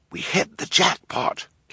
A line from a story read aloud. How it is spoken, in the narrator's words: whispered